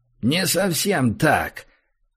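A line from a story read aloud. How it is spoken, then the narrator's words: Unpleasant creaking voice. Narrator (Russian): неприятно проскрипел чужой голос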